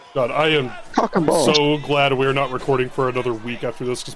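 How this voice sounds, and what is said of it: Hoarse, worn-out voice. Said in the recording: “my voice is so fucking shot”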